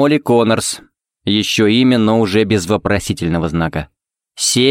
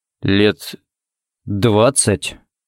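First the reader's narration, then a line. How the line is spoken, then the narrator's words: Uncertain drawl. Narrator (Russian): неуверенно протянул Харри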